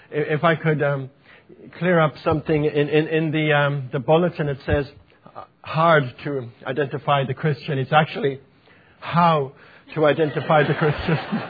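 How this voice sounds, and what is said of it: Irish accent. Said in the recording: “my Irish accent ... the Irish accent is, sometimes it's difficult uh, because we don't pronounce our words very well”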